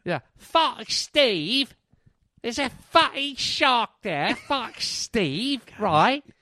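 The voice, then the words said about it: Exaggerated put-on British accent. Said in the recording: “It sounds a lot less frightening when you say it in a British voice... His British accent is very pungent”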